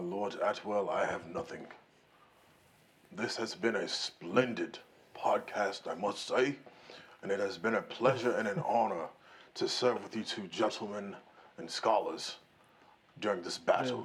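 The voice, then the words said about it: Put-on Viking accent. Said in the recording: “weird Viking accent”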